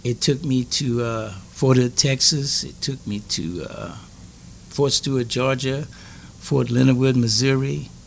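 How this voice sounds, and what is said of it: Louisiana accent mistaken for Jamaican. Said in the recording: “they called me the Jamaican boy ... I'm from Louisiana." But it was the accent. Uh-huh. It was the accent.”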